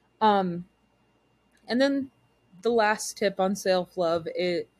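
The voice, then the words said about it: Momentary Southern Texas accent. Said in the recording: “I got real Southern for a second ... You are from Texas ... I work really hard not to have that accent. So sometimes it comes out”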